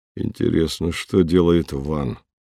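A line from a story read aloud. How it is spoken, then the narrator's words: Muttering. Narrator (Russian): пробормотал он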